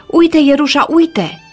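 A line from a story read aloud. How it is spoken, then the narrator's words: Shouted. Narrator (Romanian): strigă el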